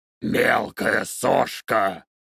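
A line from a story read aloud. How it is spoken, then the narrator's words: Growled. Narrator (Russian): прорычал Кхарнун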